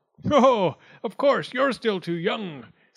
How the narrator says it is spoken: said Wildcat with a lordly kind of laugh

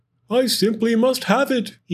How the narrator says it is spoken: he wistfully cried, as he dreamt of the fresh, juicy pine nuts inside

